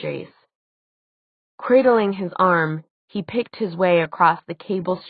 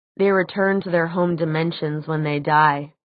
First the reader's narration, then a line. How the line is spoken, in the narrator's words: said Jace